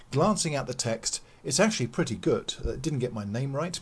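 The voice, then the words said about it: Standard Southeast England accent. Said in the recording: “I don't think I've got a weird accent. ... I've got a sort of standard Southeast England accent”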